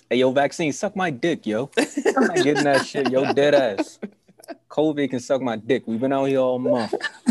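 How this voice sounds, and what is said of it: Put-on New York accent. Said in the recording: “In my New York voice.”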